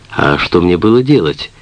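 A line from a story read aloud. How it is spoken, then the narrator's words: Calm. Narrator (Russian): спокойно сказал он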